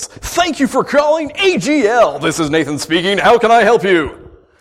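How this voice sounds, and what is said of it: Smooth radio announcer voice. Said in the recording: “always put on my radio voice”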